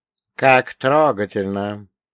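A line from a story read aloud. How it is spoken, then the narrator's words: Snide drawl. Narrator (Russian): ехидно протянул Каин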